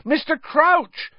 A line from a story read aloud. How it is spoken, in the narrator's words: Harry shouted